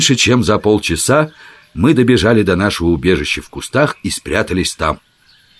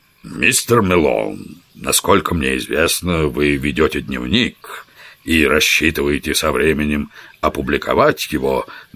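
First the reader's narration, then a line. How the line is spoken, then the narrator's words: Solemn tone. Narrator (Russian): начал он весьма торжественным тоном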